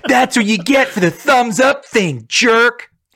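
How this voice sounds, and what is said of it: Imitates another person's voice. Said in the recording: “That's my Triple H. My 1997 Triple H will always be my impression.”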